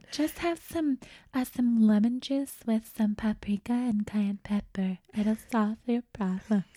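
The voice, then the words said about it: Imitates another person's voice. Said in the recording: “my goop impression”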